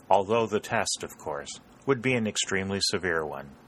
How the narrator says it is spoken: said Dalton gravely

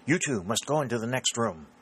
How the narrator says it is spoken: she added hastily

